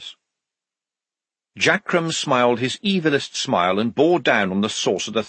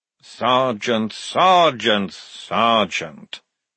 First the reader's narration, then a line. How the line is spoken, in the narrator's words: said Frock wearily